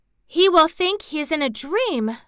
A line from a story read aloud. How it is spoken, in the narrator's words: cried Mary